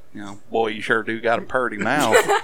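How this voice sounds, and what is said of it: Put-on Southern accent. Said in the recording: “with the southern accent”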